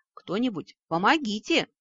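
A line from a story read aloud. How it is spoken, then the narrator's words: Yelling. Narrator (Russian): заорала женская интуиция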